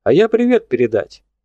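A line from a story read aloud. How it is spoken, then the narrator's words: Cheerful, brisk start. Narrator (Russian): бодро начал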